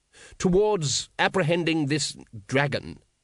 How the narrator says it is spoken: said the patrician firmly

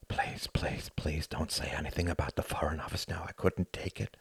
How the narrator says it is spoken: Hart whispered

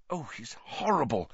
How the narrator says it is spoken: whispered Hermione

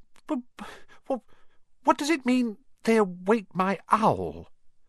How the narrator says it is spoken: he stammered

